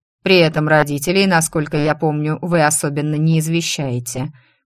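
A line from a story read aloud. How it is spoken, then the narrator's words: Grumbling baron. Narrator (Russian): проворчал барон Гилмор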